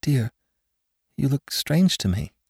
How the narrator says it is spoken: faltered Bess

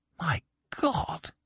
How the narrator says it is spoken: I whispered

